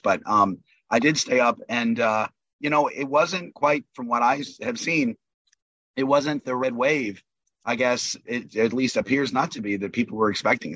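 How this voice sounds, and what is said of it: Voice affected by a cold. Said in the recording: “I have a little bit of a cold, so I apologize for my voice”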